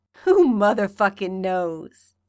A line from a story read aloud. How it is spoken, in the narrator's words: he chuckles